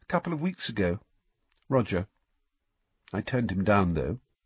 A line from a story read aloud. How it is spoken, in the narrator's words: she said in a quiet voice